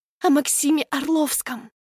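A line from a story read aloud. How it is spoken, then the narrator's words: Conspiratorial whisper. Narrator (Russian): Лена понижает голос до заговорщического шепота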